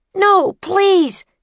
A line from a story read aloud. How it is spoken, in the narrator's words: shouted Jack